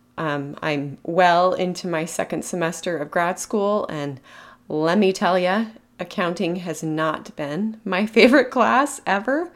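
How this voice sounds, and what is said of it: Voice affected by a lingering cold. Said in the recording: “I'm trying to recover from a nasty cold that has just lingered. You might be able to still hear it in my voice”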